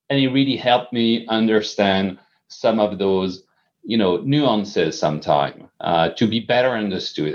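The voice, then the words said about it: Noticeable non-native accent. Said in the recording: “I still have an accent”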